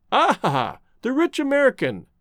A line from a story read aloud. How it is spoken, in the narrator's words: chuckled the artist